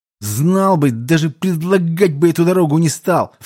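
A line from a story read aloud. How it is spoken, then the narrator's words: Repeated hiss. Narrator (Russian): в который раз уже прошипел Гуэнь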